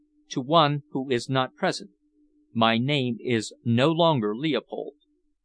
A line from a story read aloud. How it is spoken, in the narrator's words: he said calmly